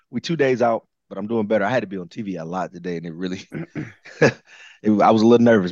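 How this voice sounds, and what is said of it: Hoarse, partly lost voice. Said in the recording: “my voice is still a little bit gone”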